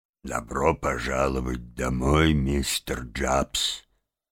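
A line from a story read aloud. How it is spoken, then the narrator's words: Solemn. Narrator (Russian): Мистер Барсук торжественно произнес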